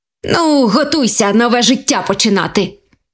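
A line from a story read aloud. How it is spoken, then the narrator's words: Happy exclamation. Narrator (Ukrainian): Вигукнув щасливий заєць до своєї сім'ї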